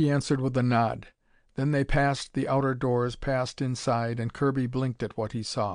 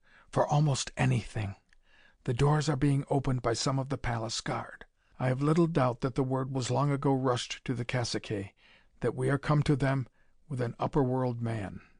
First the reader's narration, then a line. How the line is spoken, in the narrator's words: Naida whispered